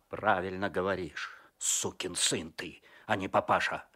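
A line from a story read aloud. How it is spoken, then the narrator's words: Angry. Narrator (Russian): зло сказал Козлов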